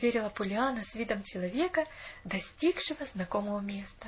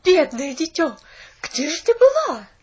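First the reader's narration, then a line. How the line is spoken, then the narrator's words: Shout. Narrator (Russian): закричала миссис Керрю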